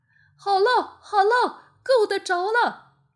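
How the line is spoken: Small monkey shouting from well. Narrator (Chinese): 最后一个小猴子在井里喊

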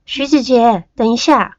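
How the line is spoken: Calling out urgently. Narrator (Chinese): 我马上喊

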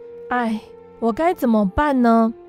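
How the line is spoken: Long sigh. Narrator (Chinese): 波波叹了一口长长的气，说

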